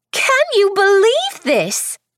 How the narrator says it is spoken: Delia Grace exclaimed

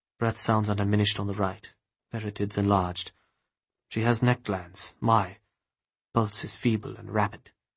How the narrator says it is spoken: He muttered

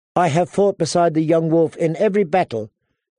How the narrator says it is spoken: Daisy Mormont said cheerfully

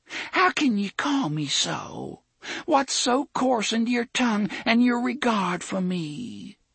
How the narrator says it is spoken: Cordelia said in a small, hurt voice

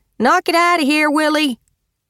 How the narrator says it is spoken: a woman shouted

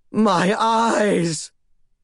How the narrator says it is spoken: Melodramatic to the end, Commodus pressed his palms against his eye sockets and screamed

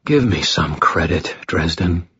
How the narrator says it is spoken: he sighed

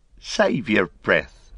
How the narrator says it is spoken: laughed Merry

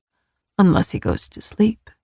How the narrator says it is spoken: Nyctos murmured

